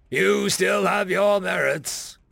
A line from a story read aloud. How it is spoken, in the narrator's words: Odin said with a mirthful chuckle